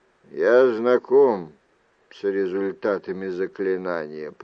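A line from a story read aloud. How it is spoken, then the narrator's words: Grumbling. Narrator (Russian): проворчал Люк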